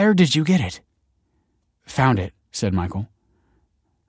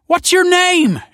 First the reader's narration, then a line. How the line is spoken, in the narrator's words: She cried